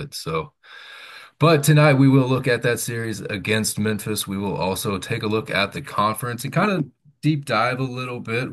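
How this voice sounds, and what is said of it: Voice sounds sick, under the weather. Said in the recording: “my voice is a little different tonight, a little under the weather ... it sounds worse than it feels”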